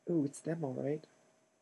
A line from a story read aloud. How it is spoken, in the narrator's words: Hermione whispered